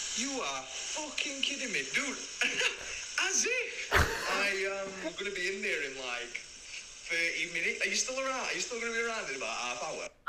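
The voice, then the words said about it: Speaks with a distinctive accent. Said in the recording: “His accent is actually so class.”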